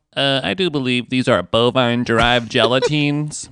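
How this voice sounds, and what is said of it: Nerdy character voice. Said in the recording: “nerd voice is bad. Ooh, that's bad.”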